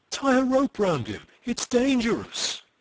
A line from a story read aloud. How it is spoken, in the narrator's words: cried a soft and anxious voice somewhere above them